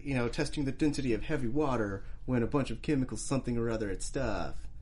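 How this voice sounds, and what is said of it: Imitates a character's voice. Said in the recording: “That's how he said it too ... that was pretty good ... My Jay Garrick impression”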